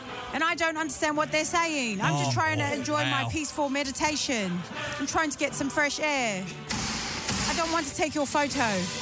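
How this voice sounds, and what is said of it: British accent. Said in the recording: “my British accent saying meditation”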